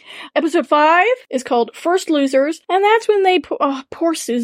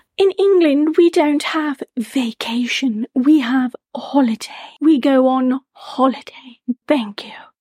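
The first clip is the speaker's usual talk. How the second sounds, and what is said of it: Put-on English accent. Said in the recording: “I love when you do the accent. Do it one more time for me.”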